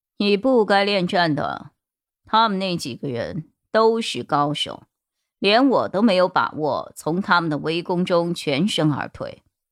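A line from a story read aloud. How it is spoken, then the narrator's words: Cold. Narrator (Chinese): 陈米林冷冷的说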